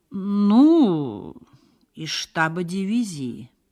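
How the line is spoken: Cautious drawl. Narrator (Russian): протянул осторожно майор

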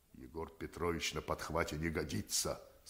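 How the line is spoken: Plain. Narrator (Russian): сказал Колупаев

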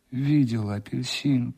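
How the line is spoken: Groaning. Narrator (Russian): простонал он

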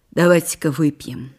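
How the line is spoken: Sharp. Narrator (Russian): резко сказала Белла Михайловна

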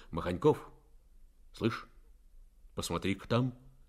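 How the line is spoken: Quiet call. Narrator (Russian): негромко окликнул

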